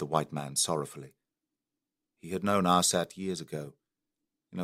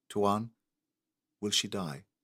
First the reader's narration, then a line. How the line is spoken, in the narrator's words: remained silent for a minute, then asked softly